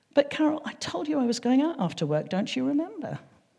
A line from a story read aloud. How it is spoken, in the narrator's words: said very kindly